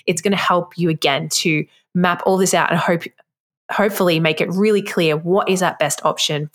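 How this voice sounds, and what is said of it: Speaks with a noticeable accent. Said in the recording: “If you can't understand my accent”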